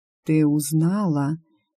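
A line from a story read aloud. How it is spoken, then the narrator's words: Slow old man's voice. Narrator (Russian): медленно произнес дедушка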